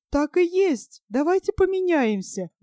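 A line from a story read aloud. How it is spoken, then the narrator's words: Exclamation. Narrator (Russian): воскликнула она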